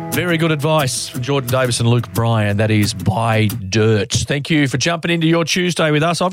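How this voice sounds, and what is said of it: Croaky voice from a cold. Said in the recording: “my croaky old I've got a cold again voice”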